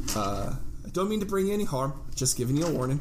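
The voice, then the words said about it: Put-on Irish accent for a character. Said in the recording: “Is he Irish? ... He is now. That's the accent I went with. ... He's got a wee bit of the Irish.”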